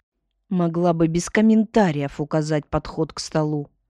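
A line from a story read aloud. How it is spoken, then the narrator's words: Young woman grumbling. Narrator (Russian): буркнула сидящая у окна девица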